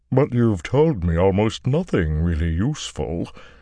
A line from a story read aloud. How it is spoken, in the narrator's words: the Ogier rumbled, a drum booming its disappointment